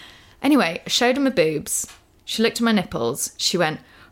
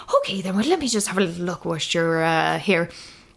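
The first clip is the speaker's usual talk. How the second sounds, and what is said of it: Bad put-on Irish accent. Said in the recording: “Terrible Irish accent. ... That was terrible.”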